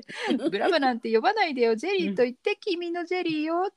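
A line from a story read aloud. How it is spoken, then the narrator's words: Forced smile. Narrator (Japanese): って作り笑いをしながら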